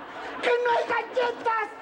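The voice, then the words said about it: Shouting. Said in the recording (Spanish): “no grites, que no somos sordos”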